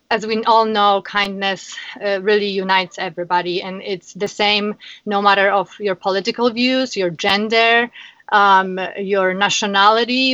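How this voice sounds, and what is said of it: Polish accent. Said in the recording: “you have the most beautiful accent ... I am originally from Poland, Warsaw.”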